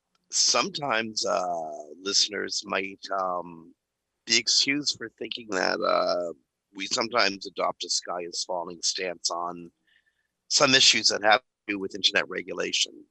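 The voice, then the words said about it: Hoarse, gravelly strained voice. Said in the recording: “My voice is killing me... I'm just gonna go gravel. I'm not gonna try to hide it. It hurts too much.”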